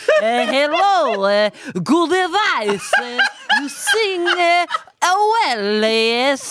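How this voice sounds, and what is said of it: Poorly done put-on Italian accent. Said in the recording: “I'm doing a terrible accent of him ... I'm doing like Italian”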